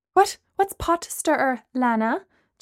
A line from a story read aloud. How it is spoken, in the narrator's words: Gemma asked nervously